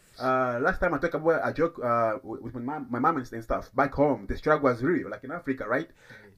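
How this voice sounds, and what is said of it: African accent. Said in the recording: “the African accent, you got even my Papa accent”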